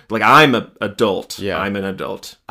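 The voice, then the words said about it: Imitates another person's stern voice. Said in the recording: “He just does that very stern voice like this.”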